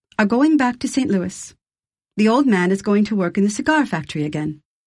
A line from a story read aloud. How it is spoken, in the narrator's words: said calmly